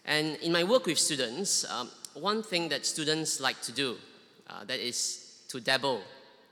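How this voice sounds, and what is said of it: Singaporean English accent. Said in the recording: “I'm not sure whether you can tell from my accent. I'm originally from Singapore.”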